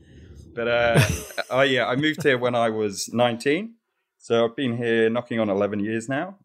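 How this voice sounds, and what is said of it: Mixed British and New Zealand accent. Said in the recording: “I'm originally from the UK ... I've got a bit of a mongrel accent at times ... I start saying, yeah, nah, and stuff like that”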